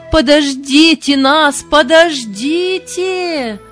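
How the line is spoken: Shouted pleading. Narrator (Russian): кричали и молили

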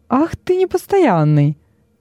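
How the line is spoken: Cheerful reproach. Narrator (Russian): весело укорил его Вениций

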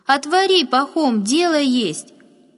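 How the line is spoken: Loud woman's reply. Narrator (Russian): громко отозвалась женщина

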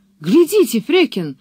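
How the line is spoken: Exclamation. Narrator (Russian): воскликнул он

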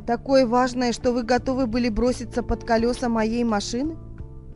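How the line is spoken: Dry questioning tone. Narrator (Russian): сухо спросил инспектор

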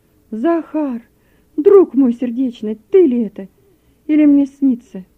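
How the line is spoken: Astonished exclamation. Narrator (Russian): Рульков от удивления воскликнул

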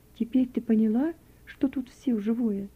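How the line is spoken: Gentle, tender. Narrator (Russian): ласково продолжала Надежда Дмитриевна

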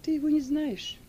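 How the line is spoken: Calm. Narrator (Russian): спокойно отвечала Сильва

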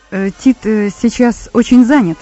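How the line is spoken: Plain. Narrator (Russian): сказал Савл

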